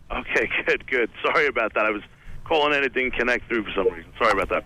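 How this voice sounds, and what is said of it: Mild English accent. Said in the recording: “English accent... It's relatively mild.”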